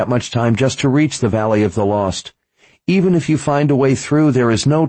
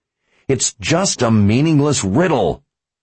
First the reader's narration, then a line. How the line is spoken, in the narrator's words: Richard growled in frustration